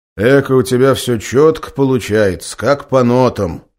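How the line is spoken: Snorting remark. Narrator (Russian): хмыкнул командир спасателей

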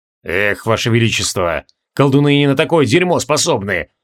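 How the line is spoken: Gloomy grumble. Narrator (Russian): хмуро пробурчал Джориан

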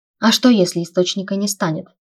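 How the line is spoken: Plain question. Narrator (Russian): спросил Вейлор

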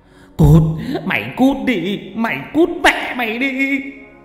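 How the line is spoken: Screaming through gritted teeth. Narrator (Vietnamese): Ông nghiến răng nghiến lợi ... kêu gào

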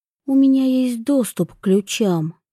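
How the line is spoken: Quiet. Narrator (Russian): тихо проговорила Вивьен

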